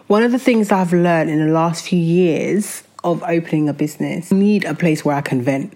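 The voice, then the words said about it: Slightly nasal, congested voice. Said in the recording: “I'm suffering from an awful, awful flu. So my voice is a little nasally”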